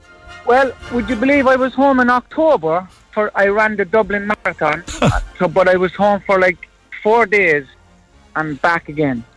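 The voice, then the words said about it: Irish Cork accent. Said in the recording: “you haven't lost your Cork accent”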